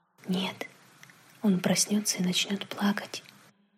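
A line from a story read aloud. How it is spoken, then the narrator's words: Quiet reply. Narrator (Russian): так же тихо ответил отец Дэви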